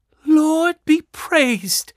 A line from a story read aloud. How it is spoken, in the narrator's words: Susan exclaimed when she saw what was inside